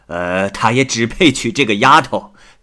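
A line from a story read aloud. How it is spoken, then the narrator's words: Amused, smiling. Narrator (Chinese): 王进士笑着说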